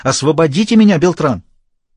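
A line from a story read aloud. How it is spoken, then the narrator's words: Shouting. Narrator (Russian): она крикнула ему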